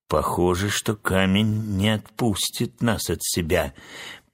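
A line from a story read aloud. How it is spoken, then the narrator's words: Gloomy voice. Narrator (Russian): помрачневшим голосом сказал моряк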